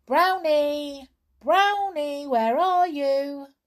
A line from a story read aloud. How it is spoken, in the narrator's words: they called out loudly